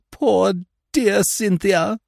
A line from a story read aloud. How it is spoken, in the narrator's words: moaned Miss Clarkson